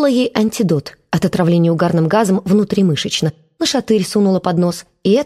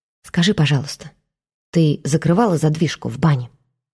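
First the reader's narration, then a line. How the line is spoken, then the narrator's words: Quiet question. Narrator (Russian): тихо спросила она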